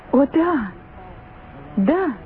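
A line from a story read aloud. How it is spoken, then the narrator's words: Twins exclaiming. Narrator (Russian): воскликнули близнецы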